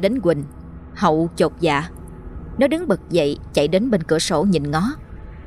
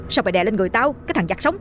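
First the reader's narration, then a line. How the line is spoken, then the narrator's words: Annoyed shout. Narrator (Vietnamese): Nó bực mình quát lên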